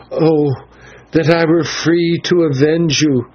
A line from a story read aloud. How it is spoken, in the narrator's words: gasped the girl as she strained and tore at the ropes which held her